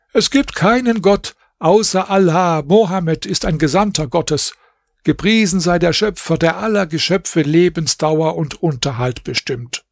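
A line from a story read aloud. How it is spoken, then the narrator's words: Called out. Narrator (German): Bedr Basim rief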